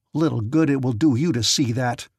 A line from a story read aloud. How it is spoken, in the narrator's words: snarled Goulard, pulling himself together